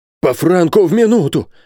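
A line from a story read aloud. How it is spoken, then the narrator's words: Exclaiming. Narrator (Russian): воскликнул Бензуф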